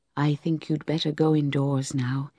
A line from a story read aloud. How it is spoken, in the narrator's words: said, as gently as a mother